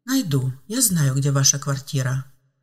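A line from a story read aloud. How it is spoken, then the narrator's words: Calm girl's reply. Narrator (Russian): спокойно ответила девушка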